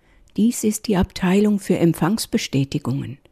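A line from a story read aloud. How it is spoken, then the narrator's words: Quiet confession. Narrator (German): gestand mein Engelfreund leise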